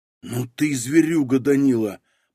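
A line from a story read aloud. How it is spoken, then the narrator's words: Amazed whisper. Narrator (Russian): прошептал пораженный Старостин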